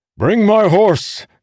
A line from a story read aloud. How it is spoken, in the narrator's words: Delinar bellowed